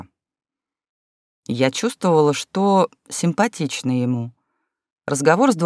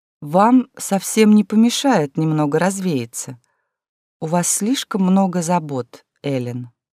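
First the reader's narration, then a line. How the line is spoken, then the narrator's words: Soft. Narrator (Russian): добавила Кёрста мягко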